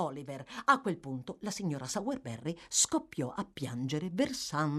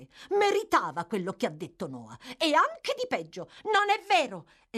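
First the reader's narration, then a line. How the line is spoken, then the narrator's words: Exclaimed. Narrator (Italian): esclamò Oliver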